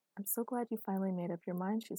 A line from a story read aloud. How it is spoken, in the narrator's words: she said happily